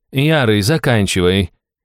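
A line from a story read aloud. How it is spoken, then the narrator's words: Bored purring voice. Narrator (Russian): скучающим голосом промурлыкал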